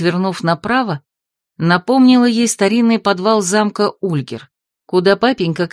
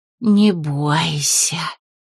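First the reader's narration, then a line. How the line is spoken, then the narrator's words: Melodic, rustling, very weary voice. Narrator (Russian): произнес хозяин этого необычного места мелодичным, чуть шелестящим и очень усталым голосом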